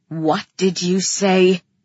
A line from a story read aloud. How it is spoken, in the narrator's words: He snarled at me